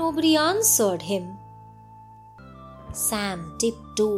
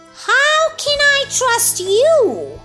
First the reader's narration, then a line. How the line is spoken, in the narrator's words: asked the elf angrily